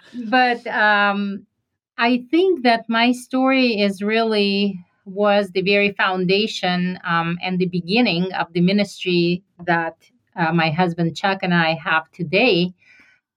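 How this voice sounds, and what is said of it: Slight foreign accent. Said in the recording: “You just have a little accent.”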